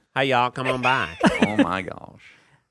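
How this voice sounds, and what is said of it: Put-on American Southern accent. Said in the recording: “Or like a Southern. Sometimes they'll do a Southern accent.”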